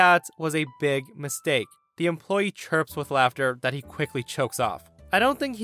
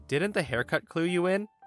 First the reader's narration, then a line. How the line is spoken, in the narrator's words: softly said